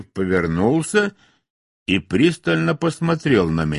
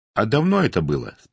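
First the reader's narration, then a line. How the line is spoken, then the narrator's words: Plain. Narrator (Russian): спросил я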